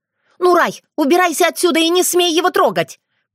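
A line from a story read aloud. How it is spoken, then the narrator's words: Shouting. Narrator (Russian): крикнула Аури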